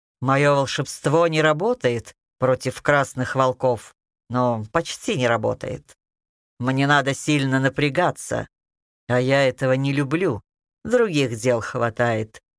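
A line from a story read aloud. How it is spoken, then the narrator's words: Calm. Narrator (Russian): спокойно ответил Кощей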